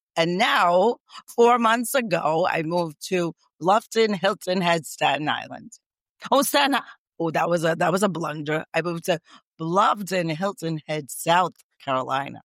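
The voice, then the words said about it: New York accent. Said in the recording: “your accent sounds like New York”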